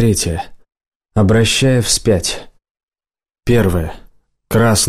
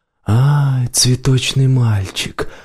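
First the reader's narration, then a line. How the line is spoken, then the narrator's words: Cooing near the ear. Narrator (Russian): проворковал голос над ухом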